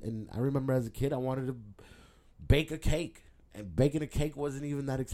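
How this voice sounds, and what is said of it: Usual voice. Nothing is said of it.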